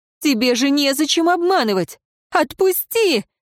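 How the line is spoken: Strained anguished cry. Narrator (Russian): надрывно вскрикнула она

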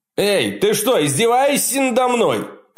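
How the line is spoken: Shouted after someone. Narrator (Russian): крикнул Джефф ему вслед

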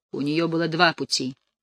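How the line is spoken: Gloomy musing. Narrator (Russian): мрачно рассуждал Потлатый

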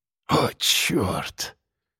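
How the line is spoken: Whispered. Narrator (Russian): прошептал Сергеич

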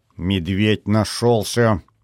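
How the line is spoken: Bitter grumbling. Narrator (Russian): желчно ворчал я

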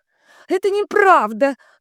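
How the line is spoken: Shrieking. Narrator (Russian): завизжала Вика

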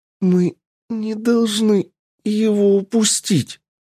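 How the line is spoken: Moaned. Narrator (Russian): простонала лиса

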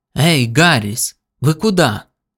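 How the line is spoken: Sudden exclamation. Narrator (Russian): Внезапно воскликнул Хуббл

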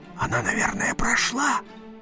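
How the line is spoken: Whisper. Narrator (Russian): шепнул

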